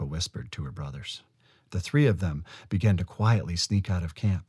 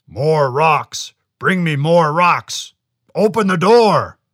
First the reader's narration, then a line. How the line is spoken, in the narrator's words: roared the Chenoo